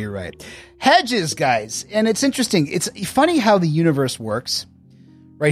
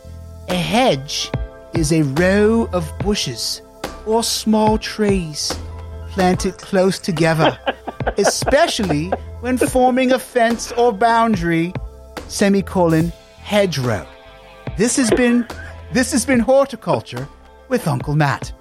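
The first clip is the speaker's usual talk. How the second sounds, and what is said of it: Put-on British accent. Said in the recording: “You seem to have acquired a British accent.”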